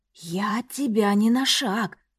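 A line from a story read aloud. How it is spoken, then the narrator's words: Purred. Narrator (Russian): промурлыкал и Каандор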